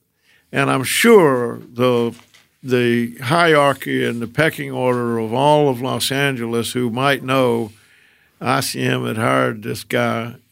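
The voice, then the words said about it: Southern American accent. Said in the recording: “the new guy with a Southern accent”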